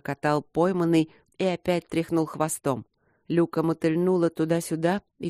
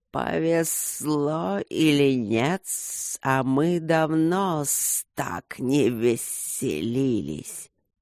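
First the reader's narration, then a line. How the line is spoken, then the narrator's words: Hissing with laughter. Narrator (Russian): Огромные духи снова зашипели, но теперь в шипении явно проскальзывали отдельные согласные смешки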